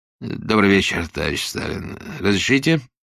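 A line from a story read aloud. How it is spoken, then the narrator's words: Hoarse, uncertain male voice. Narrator (Russian): Он сплошал, не прокашлялся вовремя, и оттого голос вышел хриплый, недостаточно верно подданный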